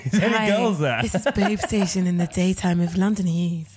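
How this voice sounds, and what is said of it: Sultry, sexy put-on voice. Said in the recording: “sultry, sexy voice.”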